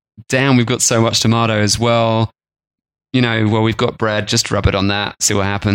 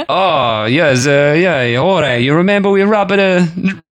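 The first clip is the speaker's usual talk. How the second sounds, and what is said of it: Put-on Italian farmer accent. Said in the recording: “That's the wrong accent. This is Italian. ... It's totally wrong accent. ... it's Italian farmer now.”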